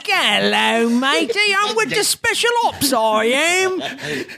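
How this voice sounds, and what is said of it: Mock Cockney Artful Dodger accent. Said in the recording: “My accents right. ... The artful Dodger videographer.”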